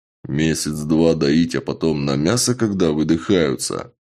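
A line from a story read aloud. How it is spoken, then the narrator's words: Even gloomier. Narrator (Russian): еще более мрачно уточнил Чак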